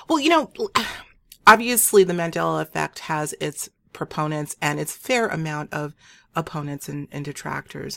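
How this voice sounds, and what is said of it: Hoarse voice. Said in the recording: “I'm a little bit hoarse. I've been doing a lot of talking lately ... my clearing my throat so much”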